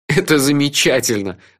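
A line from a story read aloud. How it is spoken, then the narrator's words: Laughing. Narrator (Russian): рассмеялся я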